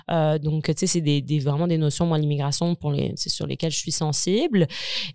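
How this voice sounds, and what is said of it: French accent from France. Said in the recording (French): “je pense qu'on l'attend à mon accent. Je suis française”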